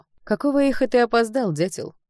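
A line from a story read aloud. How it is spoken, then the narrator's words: Menacing question. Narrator (Russian): спросила она, грозно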